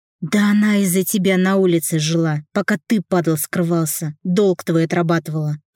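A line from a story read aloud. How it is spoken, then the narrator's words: Growled. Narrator (Russian): прорычал я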